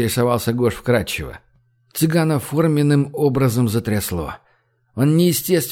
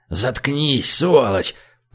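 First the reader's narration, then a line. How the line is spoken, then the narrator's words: Hiss in the ear. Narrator (Russian): прошипел ему на ухо Белый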